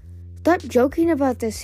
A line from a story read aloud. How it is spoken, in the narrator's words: Tsunami cried